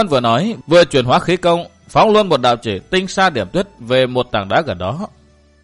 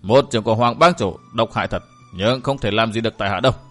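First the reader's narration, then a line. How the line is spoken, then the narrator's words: Cold, through clenched teeth. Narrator (Vietnamese): chàng nghiến răng nén cái đau vào trong rồi lạnh lùng nói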